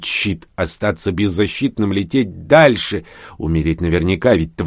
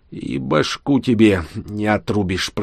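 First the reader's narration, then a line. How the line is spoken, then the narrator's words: Hiss. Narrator (Russian): прошипел Данила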